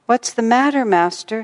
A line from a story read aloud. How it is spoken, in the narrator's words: she inquired anxiously